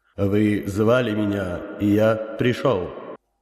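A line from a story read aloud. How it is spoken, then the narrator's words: Powerful inhuman voice. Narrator (Russian): мощным, нечеловеческим голосом произнес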